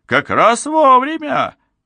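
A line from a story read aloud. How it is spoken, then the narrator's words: Exclamation. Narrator (Russian): воскликнул он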